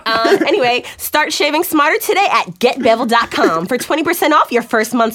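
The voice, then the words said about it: Announcer voice reading an ad. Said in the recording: “That was a total announcer voice, right?”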